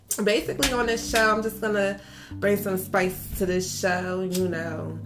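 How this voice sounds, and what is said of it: Philadelphia accent. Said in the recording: “I'm from Philly. ... you guys can probably hear the accent in my voice.”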